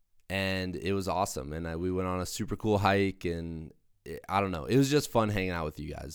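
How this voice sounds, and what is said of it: Hoarse, congested voice. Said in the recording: “my voice is going ... I catch a head cold. And my face is all clogged up”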